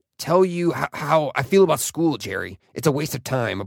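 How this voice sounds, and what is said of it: Impression of Rick. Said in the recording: “my Rick impression”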